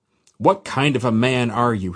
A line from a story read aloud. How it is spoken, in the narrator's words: he roared